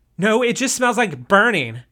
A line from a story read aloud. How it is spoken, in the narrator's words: she answered angrily